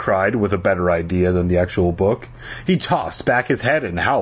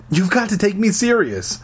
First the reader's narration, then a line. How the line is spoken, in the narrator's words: I pleaded